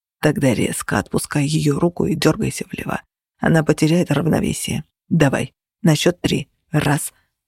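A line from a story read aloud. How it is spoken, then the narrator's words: Whisper. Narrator (Russian): шептал Феникс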